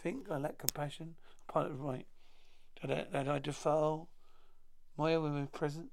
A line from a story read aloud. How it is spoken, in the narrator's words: a voice huskily